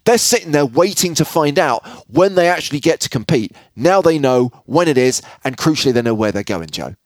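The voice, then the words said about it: Speaks with a noticeable accent. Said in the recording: “with your accent, it's hard to tell”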